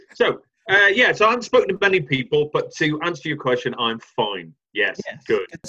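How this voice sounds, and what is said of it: Slightly croaky voice. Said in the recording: “my voice is just a bit croaky”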